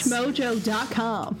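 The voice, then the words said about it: News presenter accent and cadence. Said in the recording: “they've worked that tang into this accent ... you guys are fucking nailing it ... that sort of like pattern, that speech cadence”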